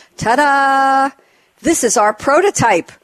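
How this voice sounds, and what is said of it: Put-on accent. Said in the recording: “I hope I do this with the right accent.”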